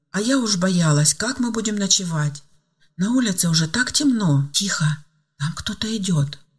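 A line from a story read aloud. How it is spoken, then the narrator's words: Sudden whisper. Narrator (Russian): вдруг шепотом оборвала Ангела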